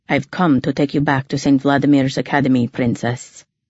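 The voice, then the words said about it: Faint Russian accent. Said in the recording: “I could hear a faint Russian accent.”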